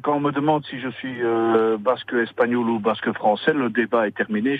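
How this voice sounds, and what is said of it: Slight foreign accent. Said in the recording (French): “ce, petit accent-là”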